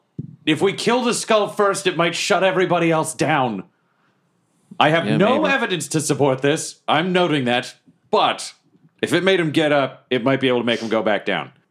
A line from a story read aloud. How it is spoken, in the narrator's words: yell